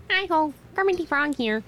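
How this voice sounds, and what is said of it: Kermit the Frog impression. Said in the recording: “my Kermit the Frog impression”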